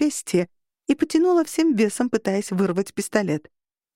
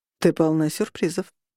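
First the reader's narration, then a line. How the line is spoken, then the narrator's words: Nearby mutter. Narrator (Russian): пробормотал рядом со мной Роган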